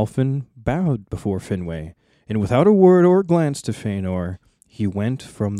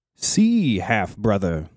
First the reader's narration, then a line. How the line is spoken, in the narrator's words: he said